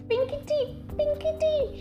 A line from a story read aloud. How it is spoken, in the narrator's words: she squeaked